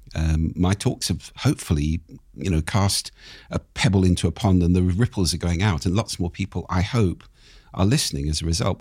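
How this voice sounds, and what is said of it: Lowered, croaky voice from a cold. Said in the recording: “you've got a bit of a chest cold ... a head cold, which is in my chest. So my voice is pitched down, I'd say two tones at the moment, and is a bit croaky ... a slightly broken instrument”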